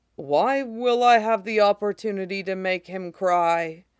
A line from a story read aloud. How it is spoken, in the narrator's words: Aegon says gravely